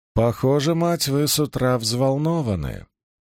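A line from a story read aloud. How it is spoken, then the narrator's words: Purring woman. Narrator (Russian): мурлыкнула зеленоглазая женщина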